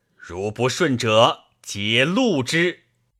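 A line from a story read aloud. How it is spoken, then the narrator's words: Stern, harsh. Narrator (Chinese): 定厉声而言曰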